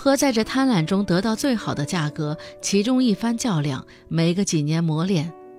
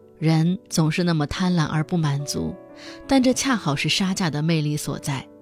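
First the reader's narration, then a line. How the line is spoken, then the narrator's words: Sighing exclamation. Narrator (Chinese): 最后他感叹道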